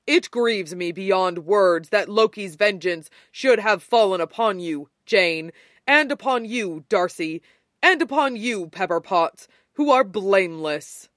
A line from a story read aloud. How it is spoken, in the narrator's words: Thor said gravely